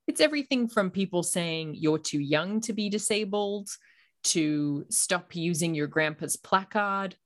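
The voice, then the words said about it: Muddled Australian accent. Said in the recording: “I'm from Australia, as you probably hear in my muddled accent.”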